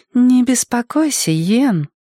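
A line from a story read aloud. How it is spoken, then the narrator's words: Purring. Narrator (Russian): промурлыкала Изабель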